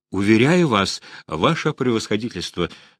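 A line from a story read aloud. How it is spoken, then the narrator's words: Calm reply. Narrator (Russian): спокойно ответил Василий Степанович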